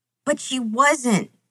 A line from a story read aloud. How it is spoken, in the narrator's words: Sam sobs